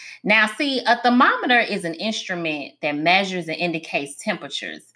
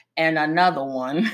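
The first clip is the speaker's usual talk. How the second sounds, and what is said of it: Imitates a DJ's voice. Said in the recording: “in my DJ Cali voice”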